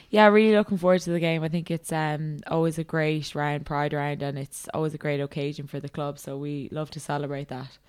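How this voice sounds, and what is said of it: Irish accent. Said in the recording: “that accent of yours didn't originate in Australia ... my own in Ireland”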